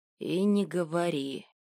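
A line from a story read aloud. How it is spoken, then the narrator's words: Quiet reply. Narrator (Russian): тихо ответил ей Орв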